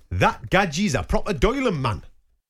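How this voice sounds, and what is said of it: Put-on Geordie accent. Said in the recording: “I'll do it in the accent because this isn't from my neck of the woods ... Do you know what accent I'm doing? ... Well, it sounds like Geordie.”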